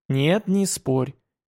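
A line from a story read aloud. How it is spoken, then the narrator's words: Gentle objection. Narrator (Russian): мягко возразил Иван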